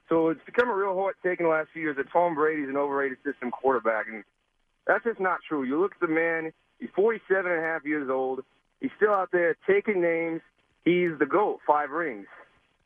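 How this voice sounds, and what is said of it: Pretty good put-on Boston accent. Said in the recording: “Give us your Boston accent. ... That's a pretty good Boston accent.”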